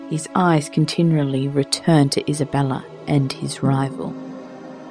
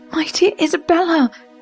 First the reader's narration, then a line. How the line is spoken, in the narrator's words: cried